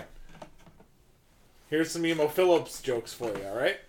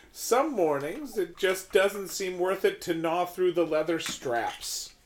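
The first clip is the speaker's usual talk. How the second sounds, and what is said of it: Emo Phillips impression. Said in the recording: “do an Emo Phillips voice? ... Was that your Emo Phillips or your Julia Child?”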